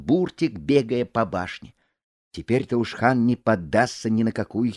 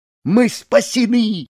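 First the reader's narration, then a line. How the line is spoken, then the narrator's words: Shout. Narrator (Russian): закричал он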